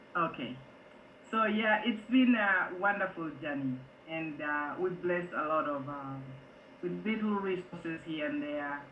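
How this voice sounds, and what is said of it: Speaks English with a slight foreign accent. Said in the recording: “my language is different. A little bit of accent.”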